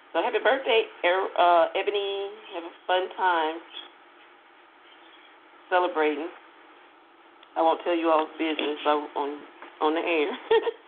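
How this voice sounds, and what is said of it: Southern US accent. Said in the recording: “You all can really hear my accent, can't you? Like, I have this Texas, Oklahoma, Mississippi accent.”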